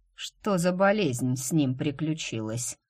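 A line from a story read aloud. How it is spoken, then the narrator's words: Snorting. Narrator (Russian): хмыкнул Гийом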